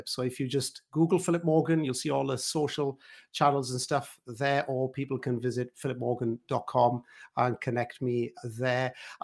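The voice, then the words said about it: Welsh accent. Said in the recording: “because I'm a Welsh guy, as you can all gather from my French accent”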